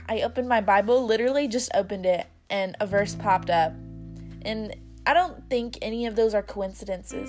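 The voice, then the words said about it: Rough, hoarse voice. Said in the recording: “excuse my voice. I've been coughing a little bit, so it's a little rough”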